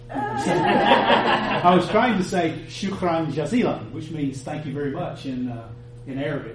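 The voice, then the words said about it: Alabama Southern US accent. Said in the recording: “With a good Alabama accent.”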